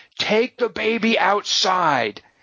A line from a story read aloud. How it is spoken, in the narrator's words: yelled